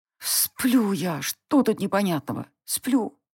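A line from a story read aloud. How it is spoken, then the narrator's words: Mumbled. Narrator (Russian): Бормотала я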